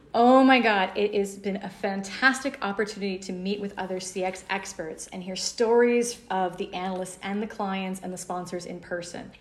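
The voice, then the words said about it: American English accent. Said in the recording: “as you can hear by my accent, I'm an American”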